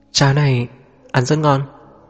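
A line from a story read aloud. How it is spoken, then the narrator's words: Smiling. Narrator (Vietnamese): Trần Huỳnh Như cũng mỉm cười, gật đầu nói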